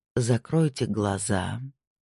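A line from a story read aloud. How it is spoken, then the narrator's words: Soft, gentle. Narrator (Russian): мягко сказал Снейдер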